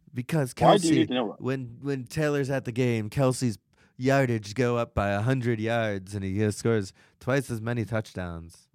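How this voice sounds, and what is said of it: Stereotyped teenage girl voice. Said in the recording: “What are you impersonating? ... I was doing like a Jewish guy, I think ... That was teenage girl ... you're doing that stereotype from the last like 20 years”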